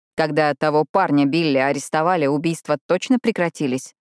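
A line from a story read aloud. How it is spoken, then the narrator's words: Plain. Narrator (Russian): спросил Рави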